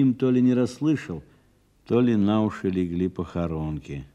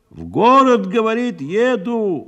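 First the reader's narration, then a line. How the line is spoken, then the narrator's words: Loud shout in ear. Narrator (Russian): громко прокричала ему на ухо Михеевна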